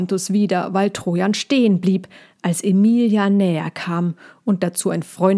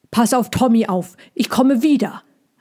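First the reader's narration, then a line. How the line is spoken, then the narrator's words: Calling out, panting. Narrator (German): rief er dann Pontus zu und japste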